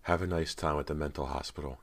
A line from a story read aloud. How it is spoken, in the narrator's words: Callie said softly